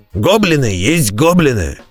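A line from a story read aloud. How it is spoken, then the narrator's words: Barked. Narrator (Russian): рявкнул Бреннер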